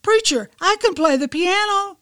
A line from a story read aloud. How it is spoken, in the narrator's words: Up from the back of the room, a voice shouted out